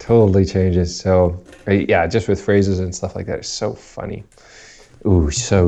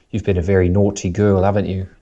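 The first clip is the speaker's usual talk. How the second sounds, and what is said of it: Put-on British accent, grandmotherly scolding. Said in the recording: “if you say it in a British accent, it sounds like a grandma's like disciplining you.”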